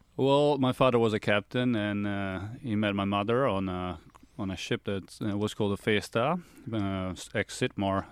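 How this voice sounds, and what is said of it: Partly Australian-sounding accent. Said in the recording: “you hear that accent? Wait a minute. But that accent, it doesn't sound like a Zanello... I'm half Australian, so I've been told that I've got a very interesting accent”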